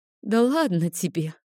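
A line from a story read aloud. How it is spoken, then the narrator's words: Sleepy, grimacing. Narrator (Russian): сонно скривилась Розали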